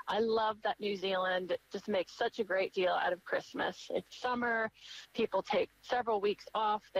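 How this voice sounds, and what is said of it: American accent. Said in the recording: “You can tell from my voice that I'm from the States”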